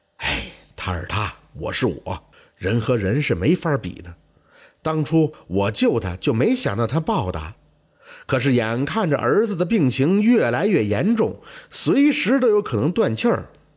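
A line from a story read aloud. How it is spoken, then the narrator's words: Sighing. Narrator (Chinese): 秋生叹气说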